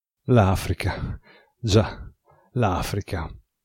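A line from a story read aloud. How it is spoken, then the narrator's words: Murmuring to himself. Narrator (Italian): mormorò Mirko fra sé e sé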